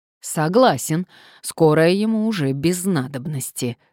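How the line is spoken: Man replying through teeth. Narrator (Russian): сквозь зубы ответил мужчина

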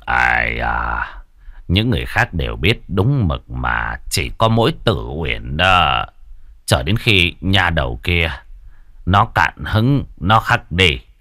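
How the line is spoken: Quiet voice. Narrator (Vietnamese): Trương Bôn nhỏ giọng

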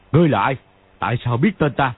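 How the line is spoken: Loud demand. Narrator (Vietnamese): Võ Tam Thông liền quát to

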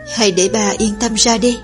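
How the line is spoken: Expressionless, after long pause. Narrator (Vietnamese): Oanh ca mặt không biểu cảm, hồi lâu sau mới nói

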